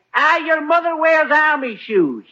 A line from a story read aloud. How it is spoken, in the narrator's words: he yells